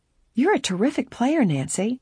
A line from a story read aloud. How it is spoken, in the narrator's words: Laura exclaimed